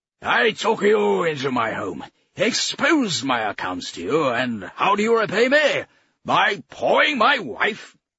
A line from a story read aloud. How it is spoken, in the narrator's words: The man playing Mayfair barked